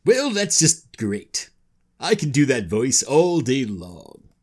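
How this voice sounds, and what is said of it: Deep, bold nobleman character voice. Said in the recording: “It's deep and bold ... Deep and bold ... half deep nobleman voice and half Charlton Heston and about one third something else that I can't really quite identify.”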